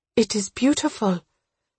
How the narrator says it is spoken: her voice trembling, she asked

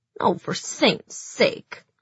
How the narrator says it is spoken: sneered Zoya

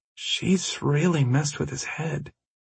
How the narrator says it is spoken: Anna said in a whisper

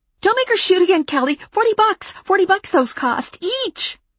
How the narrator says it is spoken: the woman in the T-shirt saying in a frantic voice

